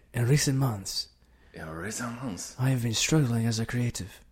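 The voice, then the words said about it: Sultry put-on Latin accent. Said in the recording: “Like a Latin. ... It's so sexy. I feel like Antonio Banderas is whispering in my ear.”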